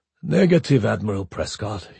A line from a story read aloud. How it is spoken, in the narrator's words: he said almost calmly